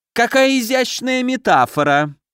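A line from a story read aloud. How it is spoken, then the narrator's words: Shrill voice from behind. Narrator (Russian): раздался сзади знакомый визгливый голос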